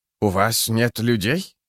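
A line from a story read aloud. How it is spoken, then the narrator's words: Spluttering hiss. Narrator (Russian): наконец прошипел Бринт, брызгая слюной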